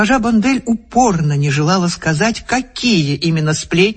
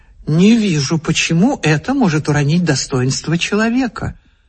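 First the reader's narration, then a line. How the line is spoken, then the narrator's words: Calm objection. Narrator (Russian): Муж спокойно возразил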